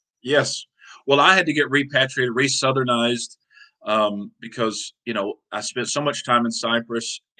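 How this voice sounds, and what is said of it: Southern American accent. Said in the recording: “I hear your Southern accent.”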